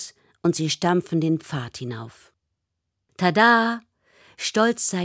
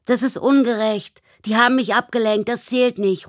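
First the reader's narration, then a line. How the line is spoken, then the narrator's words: Indignant shout. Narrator (German): ruft Michi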